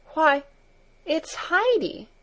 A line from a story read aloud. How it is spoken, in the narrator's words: she exclaimed